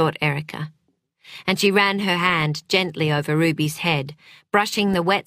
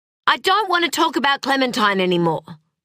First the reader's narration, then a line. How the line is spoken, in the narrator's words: she snapped